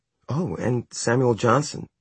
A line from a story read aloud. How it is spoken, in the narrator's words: she gasped